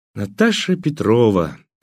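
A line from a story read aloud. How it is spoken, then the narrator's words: Solemn. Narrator (Russian): торжественно начал я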